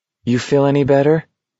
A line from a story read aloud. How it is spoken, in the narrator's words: he asked McVries hesitantly